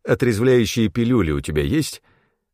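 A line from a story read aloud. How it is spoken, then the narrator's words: Slightly hoarse voice. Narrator (Russian): Голос мой звучал хрипловато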